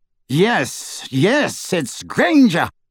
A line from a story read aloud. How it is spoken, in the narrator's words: cried Lucius